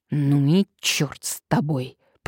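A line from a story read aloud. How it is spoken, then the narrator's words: Angry, through clenched teeth. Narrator (Russian): процедил сквозь зубы обозленный Вольсингом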